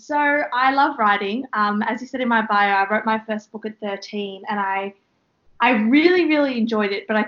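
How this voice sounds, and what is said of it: Australian accent. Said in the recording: “might be able to tell where she's from by her accent... the Australian accent”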